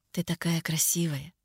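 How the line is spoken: Whisper. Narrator (Russian): Прошептал

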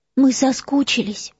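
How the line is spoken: Trembling voice. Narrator (Russian): сказала Гермиона дрожащим голосом

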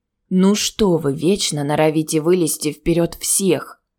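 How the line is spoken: Angry. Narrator (Russian): Зло проговорил он

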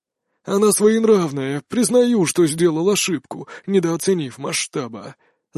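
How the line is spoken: Sad. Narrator (Russian): заговорил Гунуа печально

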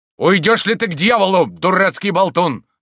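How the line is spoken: Shout. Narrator (Russian): закричал Дагобер

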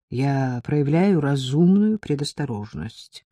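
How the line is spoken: Lazy objection. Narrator (Russian): возразил Стефан лениво

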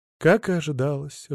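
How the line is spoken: Sigh. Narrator (Russian): вздохнул я

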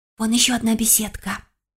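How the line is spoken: Whisper. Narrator (Russian): шепнула Симона

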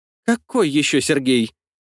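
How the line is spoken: Tense question. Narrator (Russian): спросила она все таким же напряженным голосом

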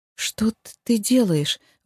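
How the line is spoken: Stunned breathless. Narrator (Russian): выдохнула ошарашенно

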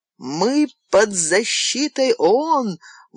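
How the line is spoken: Terrified shout. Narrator (Russian): в ужасе закричал доктор Тиссо

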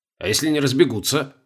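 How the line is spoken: Skeptical snort. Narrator (Russian): скептически хмыкнул

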